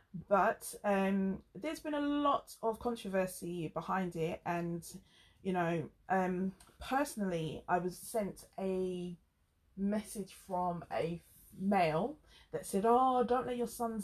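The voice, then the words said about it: Very English accent. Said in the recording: “Me with my very English accent”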